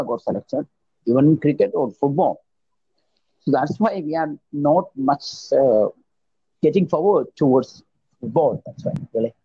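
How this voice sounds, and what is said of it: Strong accent. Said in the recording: “your accent a little bit because it's a bit strong”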